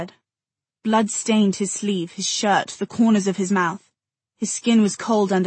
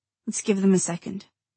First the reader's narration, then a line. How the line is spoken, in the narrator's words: she said softly